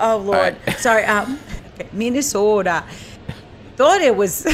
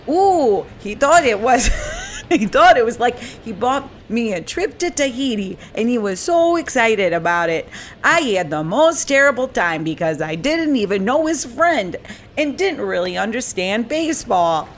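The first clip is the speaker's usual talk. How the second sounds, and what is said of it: Attempted Minnesota accent. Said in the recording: “Do a Minnesota accent for me. Let me try to emulate it ... It's hard.”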